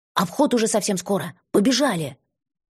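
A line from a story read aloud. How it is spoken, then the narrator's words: Sharp louder whisper. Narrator (Russian): прикрикнула спасительница чуть более громким, чем в комнате шепотом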